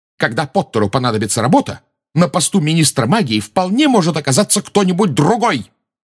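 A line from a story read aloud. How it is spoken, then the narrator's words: Shouted out. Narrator (Russian): выкрикнула МакГонагал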